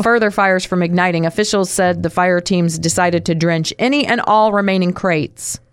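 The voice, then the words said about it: Reads news in a marked accent. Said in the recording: “Use my accent for good and not evil.”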